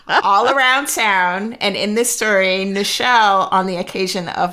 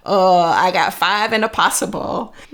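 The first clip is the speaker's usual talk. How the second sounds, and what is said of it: Slow drawl. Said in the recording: “mimicked my father's slow drawl.”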